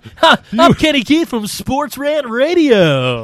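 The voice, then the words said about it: Over-the-top radio announcer voice. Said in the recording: “You were announcer voice guy, full fucking Monty with that shit.”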